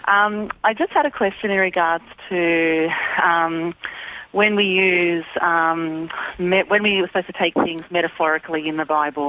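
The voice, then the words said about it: Australian accent. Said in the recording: “in Sydney, Australia? I'm supposed to let Australians on sooner ... We want to get you on so we can hear that accent. We love that accent.”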